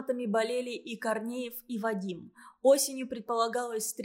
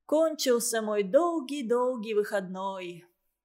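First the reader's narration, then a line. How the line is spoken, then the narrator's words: Sighing. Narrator (Russian): Никита вздохнул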